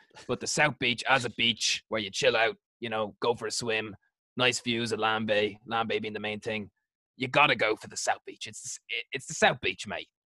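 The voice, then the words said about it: Bad Australian accent, sounds English. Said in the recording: “I'm doing a really bad impression again ... It's very like EastEnders ... it's gone straight to England ... Australian accents”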